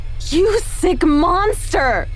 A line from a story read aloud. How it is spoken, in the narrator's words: I screamed, lunging at him